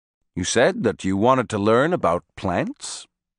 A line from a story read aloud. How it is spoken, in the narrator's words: he said calmly